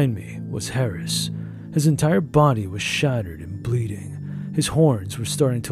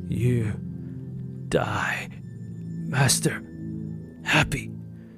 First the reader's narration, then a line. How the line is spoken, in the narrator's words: Harris said, his voice suffocating